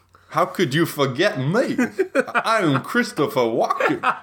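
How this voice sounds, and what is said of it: Weak Christopher Walken impression. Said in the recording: “I don't do a great Christopher Walken impression.”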